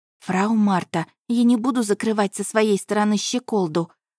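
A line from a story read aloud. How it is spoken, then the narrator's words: Loud whisper. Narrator (Russian): громко шептала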